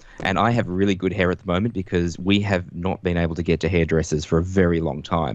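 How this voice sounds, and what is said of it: Australian accent. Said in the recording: “from the sound of your accent, Melbourne ... Australia”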